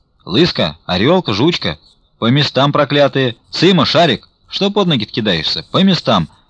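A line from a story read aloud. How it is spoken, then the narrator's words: Monks shouting at dogs. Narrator (Russian): кричали на собак монахи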